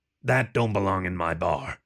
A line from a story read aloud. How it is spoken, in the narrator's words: growled